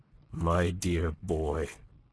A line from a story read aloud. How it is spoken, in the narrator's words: His lip trembled, and there was a huskiness in the voice that murmured